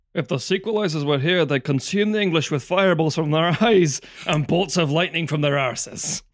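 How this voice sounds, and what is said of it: Bad Mel Gibson Scottish accent. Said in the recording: “silly Scottish accents ... that was an Australian accent ... Mel Gibson is an Australian ... An American-Australian accent ... That accent is garbage from Mr. Gibson ... Bad accent from Mel Gibson”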